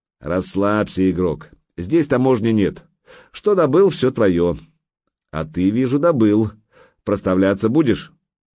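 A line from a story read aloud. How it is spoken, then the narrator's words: Laughing deep bass voice. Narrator (Russian): маленький тролль засмеялся и пробасил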